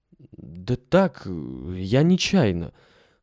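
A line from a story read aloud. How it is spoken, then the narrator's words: Confused mumbling. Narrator (Russian): растерянно мямлил Алеша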